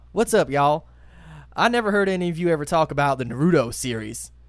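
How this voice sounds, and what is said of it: Put-on Texas accent. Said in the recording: “I'm going to read this one in my Texas accent.”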